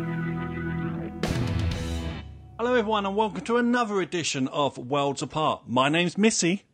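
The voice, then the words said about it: Bad attempt at a British accent. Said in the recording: “Now that was awful. That doesn't even sound like a British accent. ... It was awful.”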